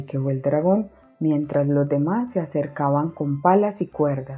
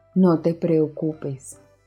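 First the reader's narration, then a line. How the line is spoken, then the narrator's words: Plain. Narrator (Spanish): dijo Isa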